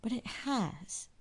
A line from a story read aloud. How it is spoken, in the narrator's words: he said, shaking his head sadly